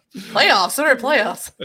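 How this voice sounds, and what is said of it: Imitates another person's voice. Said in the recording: “we got a Jim Mora impersonation over there.”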